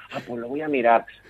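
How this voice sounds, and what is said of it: Puts on a clueless voice. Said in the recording (Spanish): “le estoy poniendo voz como si no supiera de que le hablaba”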